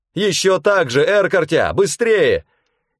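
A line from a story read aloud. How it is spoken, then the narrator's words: Shout. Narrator (Russian): крикнула Чера Эрбархан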